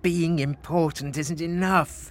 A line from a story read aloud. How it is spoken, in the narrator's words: moaned Frederick